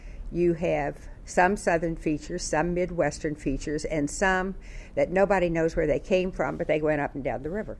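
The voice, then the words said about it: Kentucky accent, southern and midwestern features. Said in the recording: “My basic accent is Kentucky, and I'm from a tri-dialect region”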